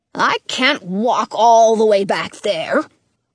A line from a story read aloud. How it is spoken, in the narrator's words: Dottie grumbles